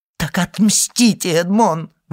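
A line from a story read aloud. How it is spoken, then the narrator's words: Anguished mother's exclamation. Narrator (Russian): воскликнула несчастная мать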